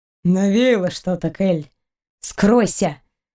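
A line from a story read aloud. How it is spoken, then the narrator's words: Through gritted teeth, stunned. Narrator (Russian): Процедила Кристина сквозь зубы, слишком ошеломленная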